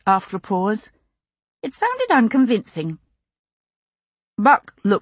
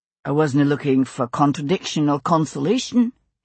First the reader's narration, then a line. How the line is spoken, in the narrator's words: he said dryly